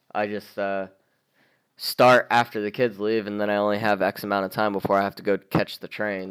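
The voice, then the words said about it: Hoarse, fading voice. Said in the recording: “my voice is leaving me”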